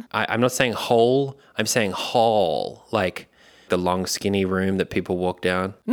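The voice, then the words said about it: Australian accent. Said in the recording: “It's my accent. It's an Australian accent.”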